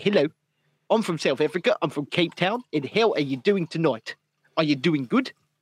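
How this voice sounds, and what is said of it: Put-on South African accent. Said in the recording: “shorten every word and then enunciate your hard vowels ... You enunciate your hard consonants ... talk like a South African ... all of your d's and t's need to be enunciated”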